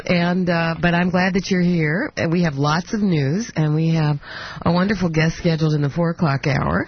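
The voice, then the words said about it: Congested voice with a cold. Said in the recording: “I have a cold”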